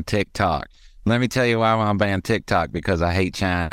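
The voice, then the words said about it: Put-on voice of a senator. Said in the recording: “why am I doing this voice? ... he's one of these senators”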